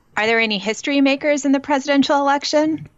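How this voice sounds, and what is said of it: Sickly sweet put-on political voice. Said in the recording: “Your voice sounds a little too sickly sweet right now. ... putting on my best political voice”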